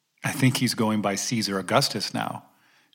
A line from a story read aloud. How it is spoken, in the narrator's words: Joseph replied